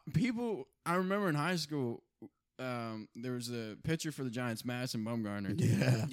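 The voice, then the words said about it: Southern-sounding American accent. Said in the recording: “This is a bad southern accent.”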